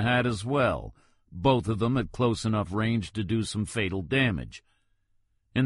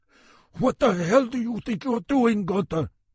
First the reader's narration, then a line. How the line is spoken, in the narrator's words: he shouted quietly